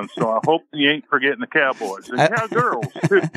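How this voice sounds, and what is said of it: Put-on cowboy accent. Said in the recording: “I like the accent.”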